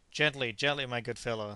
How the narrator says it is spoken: said Dick, laughing

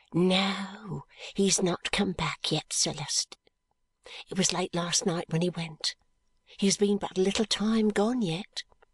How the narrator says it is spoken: The old housekeeper whispers

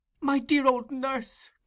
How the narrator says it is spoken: cried Oliver

